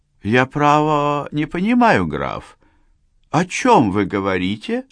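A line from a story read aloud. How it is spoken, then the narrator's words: Calm reply. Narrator (Russian): Спокойно отозвалась она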